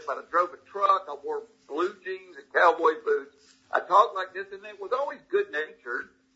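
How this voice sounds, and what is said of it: Thick Southern American accent. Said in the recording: “I've got this thick Southern accent”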